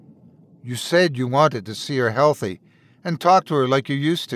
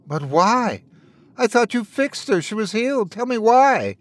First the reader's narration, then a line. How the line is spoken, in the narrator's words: Wendell begged